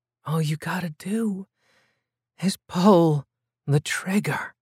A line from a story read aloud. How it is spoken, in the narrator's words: she whispered